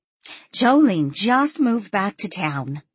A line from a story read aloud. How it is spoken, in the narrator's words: Millie said excitedly